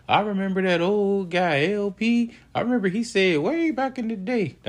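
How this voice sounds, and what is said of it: Old man voice. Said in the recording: “That's my old man voice. ... you think it was old man? Nah, probably not.”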